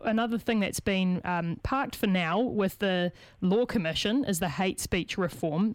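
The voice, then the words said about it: Strained, fading voice. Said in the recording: “I'm losing my voice here this morning”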